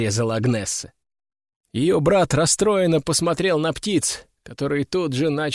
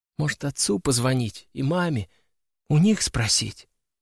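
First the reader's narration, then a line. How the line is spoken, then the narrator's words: Quiet suggestion. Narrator (Russian): тихо предложил он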